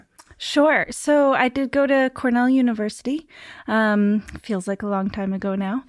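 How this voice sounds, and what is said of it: American accent. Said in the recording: “the beautiful American accent”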